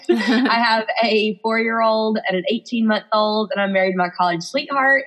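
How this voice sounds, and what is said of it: Alabama Southern US accent. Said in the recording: “Birmingham, Alabama, which you can probably hear in my accent”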